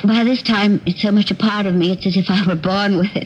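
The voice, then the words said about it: Put-on affected accent. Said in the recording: “You don't have to put on the accent.”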